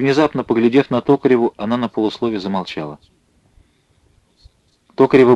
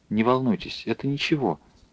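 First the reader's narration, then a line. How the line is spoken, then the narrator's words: Quiet. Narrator (Russian): тихо сказала она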